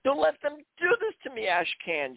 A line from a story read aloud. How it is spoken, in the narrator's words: Gina pleaded, screaming in desperation